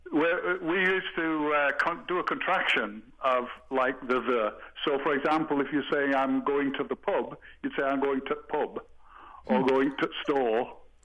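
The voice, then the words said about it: English accent. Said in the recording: “I'm still trying to protect my English accent.”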